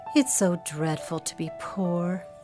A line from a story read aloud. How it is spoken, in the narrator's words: sighed Meg